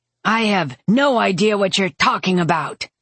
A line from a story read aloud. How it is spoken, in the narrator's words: Drest shouted